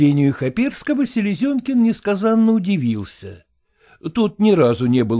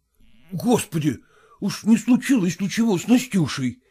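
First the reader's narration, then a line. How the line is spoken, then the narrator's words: Frightened question. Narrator (Russian): испуганно спросил Селезенкин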